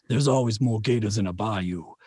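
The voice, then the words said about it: Southern Louisiana accent, Gambit. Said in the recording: “I have to slip into a Southern accent ... everything just sounds like Eastern Texas / Louisiana. I'm a big, big Gambit fan from the X-Men. ... every time I go to do my Southern accent”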